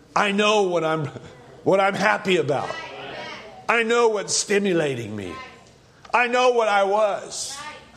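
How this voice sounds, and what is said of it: Shouting preacher. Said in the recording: “I'm shouting because it's stimulation of the revelation.”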